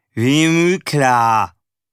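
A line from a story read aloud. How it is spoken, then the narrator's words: Slurred. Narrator (German): lallte Erik Bär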